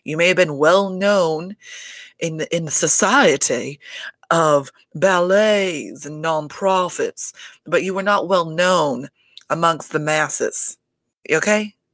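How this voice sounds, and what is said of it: Put-on accent. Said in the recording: “I don't know how well this accent is working out, everybody... it felt like it needed an accent”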